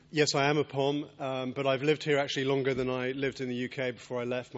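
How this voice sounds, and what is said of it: English accent. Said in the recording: “a guy with an English accent”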